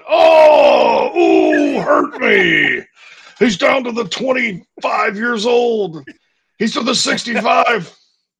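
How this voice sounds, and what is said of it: Grunting sports announcer impression. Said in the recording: “really, really good Todd Ellis impersonation ... you just kind of grunt”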